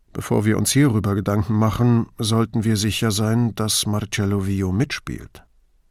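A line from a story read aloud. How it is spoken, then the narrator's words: Quiet cautionary remark. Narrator (German): Brunetti gab leise zu bedenken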